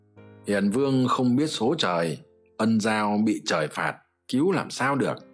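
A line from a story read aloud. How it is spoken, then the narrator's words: Loud laughing remark. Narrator (Vietnamese): cười lớn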